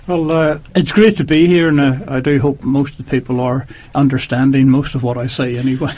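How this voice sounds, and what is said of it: Speaker with noticeable accent. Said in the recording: “always we like your accent”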